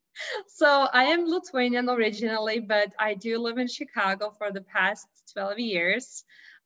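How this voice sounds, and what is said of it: Lithuanian-accented English. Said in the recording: “I have this Chicago accent. So that comes from Lithuania”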